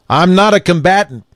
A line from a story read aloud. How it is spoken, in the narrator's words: said, loudly but in a steady voice